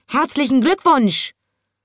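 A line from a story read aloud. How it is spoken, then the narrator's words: Parrot screeching excitedly. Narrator (German): konnte der Papagei den Schnabel nicht mehr halten und er schrie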